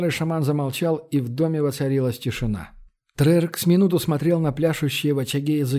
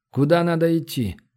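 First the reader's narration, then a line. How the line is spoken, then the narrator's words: Calm question. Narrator (Russian): спокойно спросил Трерк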